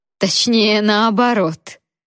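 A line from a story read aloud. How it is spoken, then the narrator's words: Chuckling. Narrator (Russian): хохотнула Риша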